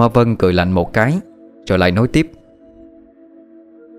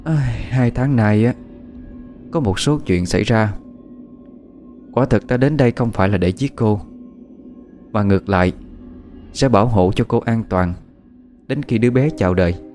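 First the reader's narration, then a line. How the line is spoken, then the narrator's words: Sighing reply after pause. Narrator (Vietnamese): Cô ta im lặng một lúc rồi thở dài đáp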